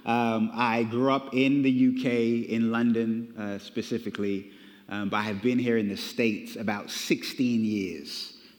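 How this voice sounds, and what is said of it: British accent. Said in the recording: “the accent that you're picking up is a British accent ... there's like a little bit of that. Is that South African, Australian, British?”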